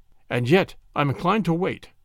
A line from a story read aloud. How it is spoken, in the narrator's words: said Douglas Stone